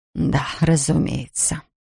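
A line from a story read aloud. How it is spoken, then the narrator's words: Whisper. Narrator (Russian): прошептал Ферн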